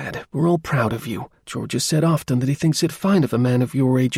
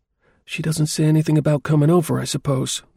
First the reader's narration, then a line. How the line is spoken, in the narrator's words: the young woman asked a little timidly